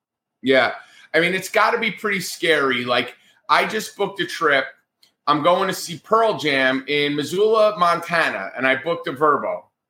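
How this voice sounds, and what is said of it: New Jersey accent. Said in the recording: “I'm a Yankee with a New Jersey accent.”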